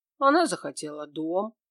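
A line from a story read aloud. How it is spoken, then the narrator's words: Calm answer. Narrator (Russian): ответил Кощеев спокойно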